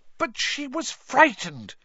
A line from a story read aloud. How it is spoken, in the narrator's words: Hermione burst out angrily